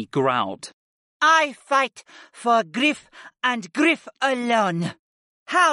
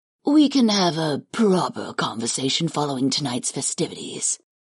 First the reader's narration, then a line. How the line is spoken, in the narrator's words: Karth murmured after a long moment